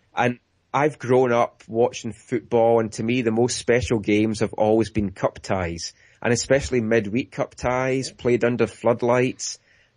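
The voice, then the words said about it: Scottish accent. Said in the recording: “as folk might tell from my accent, I'm from Scotland”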